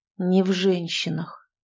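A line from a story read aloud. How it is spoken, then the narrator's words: Quiet echoing repetition. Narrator (Russian): эхом все так же тихо повторил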